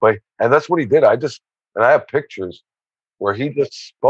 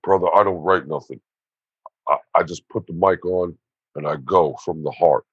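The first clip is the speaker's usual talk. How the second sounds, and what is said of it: Imitates another person's voice. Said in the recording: “my Ernie impersonation ... that's my Ernie impersonation.”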